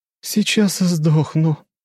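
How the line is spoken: Moaning young woman. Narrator (Russian): простонала девушка

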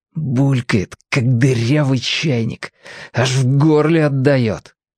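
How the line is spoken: Hoarse angry whisper. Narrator (Russian): Хриплым и злым шепотом Женька сказал

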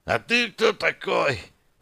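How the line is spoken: Fearful young man's hiss. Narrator (Russian): прошипел парень, боязливо оглядываясь

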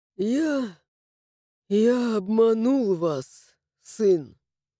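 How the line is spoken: Sigh. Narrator (Russian): вздохнул Ардон

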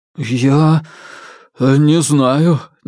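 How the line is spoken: Uncertain mumble. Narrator (Russian): неуверенно промямлил хозяин усадьбы

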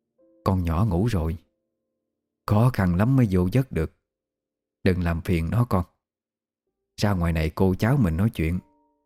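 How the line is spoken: Quiet hushed voice. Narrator (Vietnamese): Bà Tư Trinh sợ Liêm làm cô tức giấc, mới nhỏ giọng gọi

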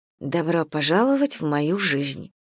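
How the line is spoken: Mumble. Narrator (Russian): пробормотала я

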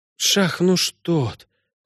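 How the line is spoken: Whispered. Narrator (Russian): прошептала Синтия

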